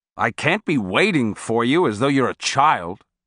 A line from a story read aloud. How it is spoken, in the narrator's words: he said in a scolding tone